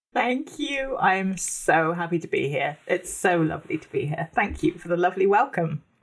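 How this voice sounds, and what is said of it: Posh-sounding accent. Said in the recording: “her amazing accent ... I'll try and be as posh as I possibly can be.”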